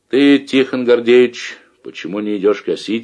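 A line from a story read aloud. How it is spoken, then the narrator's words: Plain. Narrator (Russian): спросил Давыдов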